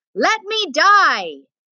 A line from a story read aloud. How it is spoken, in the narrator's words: he cried out again